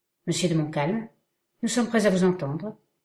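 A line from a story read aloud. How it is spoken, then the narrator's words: Calmer tone. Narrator (French): dit Munro d'un ton plus calme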